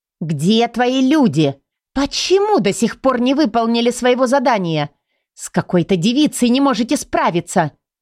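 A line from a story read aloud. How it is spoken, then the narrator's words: Furious young woman shouting. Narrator (Russian): кричала девушка, испепеляя глазами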